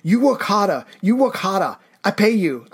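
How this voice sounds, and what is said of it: Stereotyped mock Chinese accent. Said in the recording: “Wow, I can't believe you just did Hollywood. ... Fu Manchu accent”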